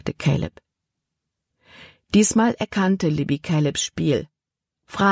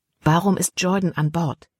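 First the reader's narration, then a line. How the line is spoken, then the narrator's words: Plain question. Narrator (German): fragte Libby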